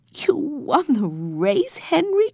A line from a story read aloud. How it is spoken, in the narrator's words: cried Jesse, delighted